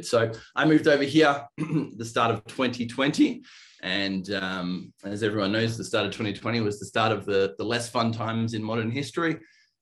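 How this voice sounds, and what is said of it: Australian accent. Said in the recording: “you might hear my accent. ... I'm originally from Australia, the east coast of Australia”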